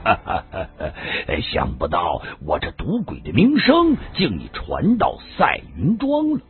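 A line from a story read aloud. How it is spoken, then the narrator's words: Genuine laughter. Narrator (Chinese): 顾道人这回是真的笑了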